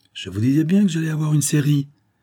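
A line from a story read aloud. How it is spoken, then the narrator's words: Exclaimed. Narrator (French): s'écria Combaz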